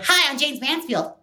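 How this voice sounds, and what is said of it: High-pitched squeaky put-on voice. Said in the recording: “the high-pitched squeak ... it's air that's trapped in the back of my throat that I just kind of push forward ... talking in the voice”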